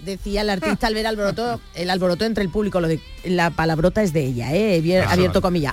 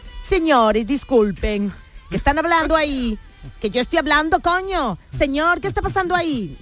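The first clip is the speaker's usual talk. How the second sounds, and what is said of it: Put-on Italian accent. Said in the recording (Spanish): “intento poner también el acento italiano”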